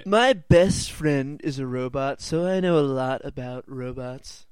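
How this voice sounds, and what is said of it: Imitates another person's voice, badly. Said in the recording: “bad Donald Trump impression”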